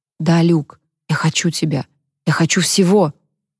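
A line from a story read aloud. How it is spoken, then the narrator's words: Whisper. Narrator (Russian): Она говорила шепотом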